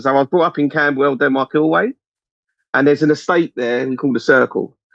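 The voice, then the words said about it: South East London accent. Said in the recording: “I come from South, as you may have noticed from a bit of the accent, but I'm being as eloquent as I can. I come from South East London.”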